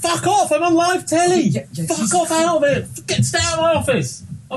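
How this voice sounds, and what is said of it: British accent, shouting. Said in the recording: “British accent”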